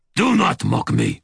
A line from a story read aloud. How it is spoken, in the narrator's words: my shadow snarled